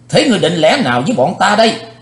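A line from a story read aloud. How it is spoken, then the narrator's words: Loud snarl. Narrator (Vietnamese): Thiếu giáo chủ âm ma nạt lớn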